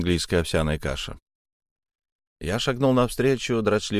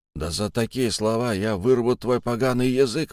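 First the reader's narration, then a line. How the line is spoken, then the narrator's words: Hoarse angry exclamation. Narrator (Russian): воскликнул хрипатый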